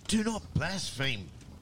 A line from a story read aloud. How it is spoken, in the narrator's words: cried the other, as he saw the menacing expression on his father's face